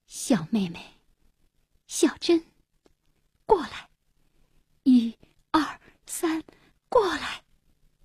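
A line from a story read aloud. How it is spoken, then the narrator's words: Tender, soft calling. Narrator (Chinese): 红鼻子以满怀真挚的情感和极大的爱心轻声细语地呼唤小珍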